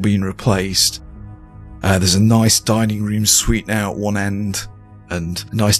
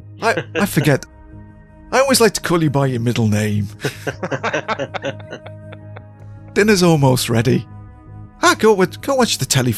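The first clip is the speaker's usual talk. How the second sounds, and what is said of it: Poor put-on Irish accent, higher pitch. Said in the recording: “my attempt at another poor Irish accent, just in a slightly higher pitch ... Just think Father Dougal.”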